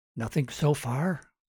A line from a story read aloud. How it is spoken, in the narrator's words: Martin whispered